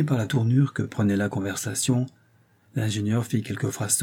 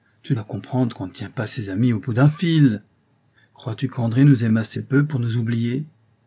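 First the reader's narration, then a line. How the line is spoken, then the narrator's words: Reproachful tone. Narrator (French): fit Brun d'un ton de reproche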